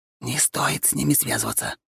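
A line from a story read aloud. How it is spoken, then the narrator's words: Dropping to whisper. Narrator (Russian): перешел он на шепот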